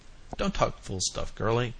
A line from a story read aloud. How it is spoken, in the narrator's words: he said impatiently